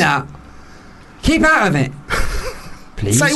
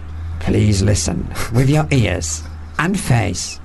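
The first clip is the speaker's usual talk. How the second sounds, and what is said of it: Sincere radio announcer voice. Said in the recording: “I'll do a sincere radio voice.”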